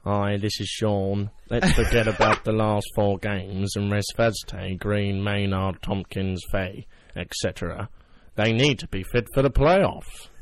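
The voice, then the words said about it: Imitates another person's voice. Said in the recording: “Best impression of Sean.”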